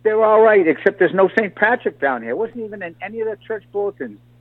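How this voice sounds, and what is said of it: Boston-Irish accent. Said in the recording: “is that a Boston or an Irish accent? ... It's both. It's a Boston-Irish accent.”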